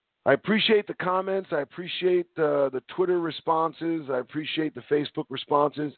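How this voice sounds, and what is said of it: Strained, fading voice. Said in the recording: “I'm losing my voice a little bit.”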